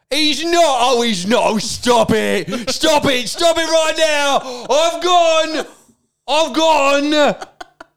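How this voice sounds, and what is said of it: Screaming Dagenham darts commentator impression. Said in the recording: “he was from Dagenham... do an impression of my drummer doing an impression of of this darts guy... Mardle screamed”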